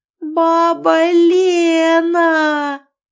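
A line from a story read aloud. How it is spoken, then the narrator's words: Frantic scream. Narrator (Russian): истошно завопила Лизавета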